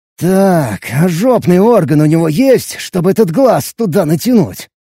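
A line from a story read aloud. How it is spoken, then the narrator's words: Through gritted teeth. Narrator (Russian): Сквозь зубы процедил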